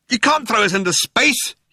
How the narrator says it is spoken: yelled Ford

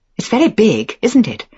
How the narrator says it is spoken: I said, too brightly, too forced

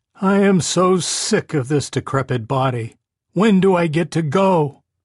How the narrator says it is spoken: He called out

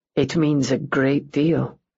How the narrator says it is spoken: Rourke murmured

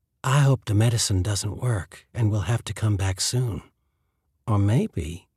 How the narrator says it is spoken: purred

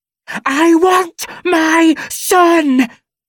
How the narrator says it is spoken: She screams

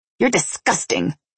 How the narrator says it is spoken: I spat

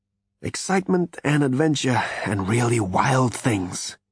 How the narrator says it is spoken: he muttered

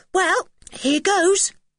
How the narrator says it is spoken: he said in a cheerful voice

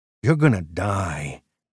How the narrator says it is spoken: he said to Mal, his voice dripping with relish

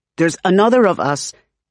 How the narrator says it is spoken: he blurts

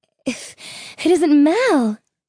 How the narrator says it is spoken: she added nervously

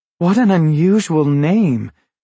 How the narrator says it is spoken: Shoko exclaimed

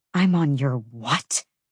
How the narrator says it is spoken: She spat

